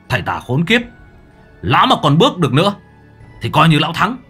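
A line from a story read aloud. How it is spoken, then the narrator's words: Strained pained shout. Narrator (Vietnamese): Minh Hải khó nhọc hét lớn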